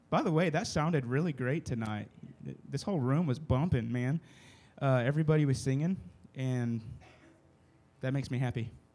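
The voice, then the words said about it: Strained, worn-out voice. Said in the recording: “Obviously, you can tell my voice is about to give out”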